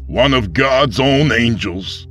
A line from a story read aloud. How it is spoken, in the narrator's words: the pastor spat at him